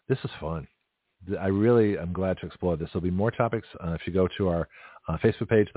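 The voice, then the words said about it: Hoarse, strained voice. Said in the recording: “my voice is giving out ... my voice is really shot”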